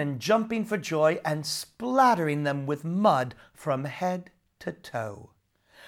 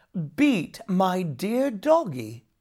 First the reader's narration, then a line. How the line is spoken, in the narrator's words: exclaimed Jamie